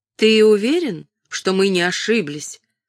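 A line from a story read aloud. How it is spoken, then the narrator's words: Doubtful question. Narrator (Russian): спросила она с сомнением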